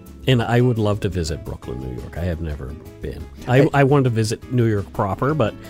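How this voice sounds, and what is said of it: Usual voice. Nothing is said of it.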